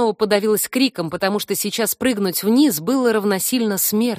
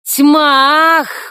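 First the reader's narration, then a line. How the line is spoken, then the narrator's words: Breathless exclamation. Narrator (Russian): выдохнула я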